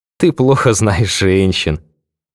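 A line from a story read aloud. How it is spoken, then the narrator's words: Burst of laughter. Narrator (Russian): расхохоталась одноклассница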